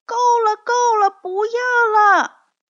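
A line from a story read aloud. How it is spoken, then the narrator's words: Frightened cry. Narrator (Chinese): 珍妮吓得抱着头叫起来，说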